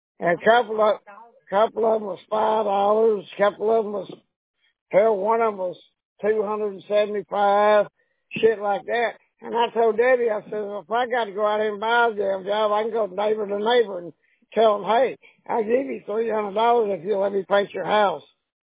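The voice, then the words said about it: Hoarse, fading voice. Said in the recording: “losing my voice”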